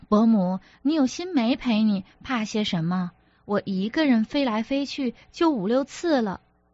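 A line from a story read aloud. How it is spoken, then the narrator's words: Joking. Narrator (Chinese): 文玩笑道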